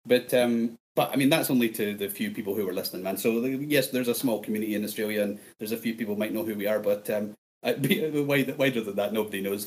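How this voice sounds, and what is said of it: Strong Scottish accent. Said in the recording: “you've got a strong Scottish accent”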